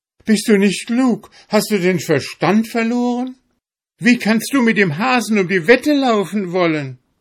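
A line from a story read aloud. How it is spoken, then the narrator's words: Wife shouting. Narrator (German): schrie dem Svenegel seine Frau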